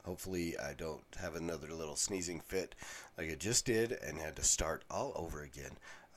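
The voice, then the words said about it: Congested voice from a cold. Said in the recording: “I've got a cold ... I sound horrible. I sound kind of like Peter Brady ... try not to sniffle into the microphone”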